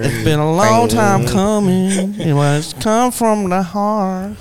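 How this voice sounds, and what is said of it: Sings with a put-on accent. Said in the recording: “You just change your accent. ... You're just singing the song with an accent, bro.”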